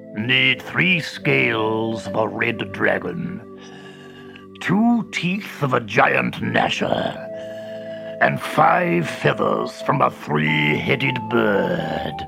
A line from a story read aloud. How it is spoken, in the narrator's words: he growled